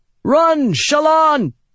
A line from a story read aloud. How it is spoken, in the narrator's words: Adolin shouted